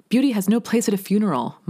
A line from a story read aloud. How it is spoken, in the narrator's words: my auntie screams